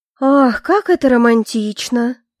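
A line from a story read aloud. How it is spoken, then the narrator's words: Languid sigh, older woman. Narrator (Russian): Томно вздохнула Алевтина Ростенская, высокая плотная шатенка 50-60 лет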